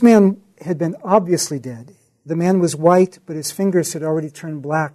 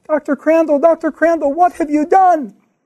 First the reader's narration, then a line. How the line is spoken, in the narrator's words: the nurse starts screaming